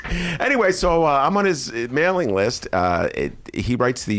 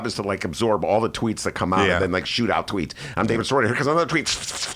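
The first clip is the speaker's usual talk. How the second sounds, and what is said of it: Fast-talking imitation of another person. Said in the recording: “David Sirota talks really fast and thinks really fast. He talks like this. ... it's a good impression.”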